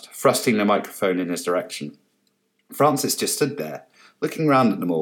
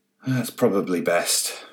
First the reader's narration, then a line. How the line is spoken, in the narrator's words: Francis said wearily